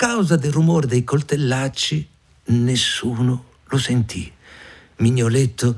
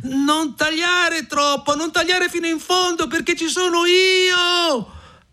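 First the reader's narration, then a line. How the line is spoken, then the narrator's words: Shouting at top of lungs. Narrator (Italian): egli gridò a squarciagola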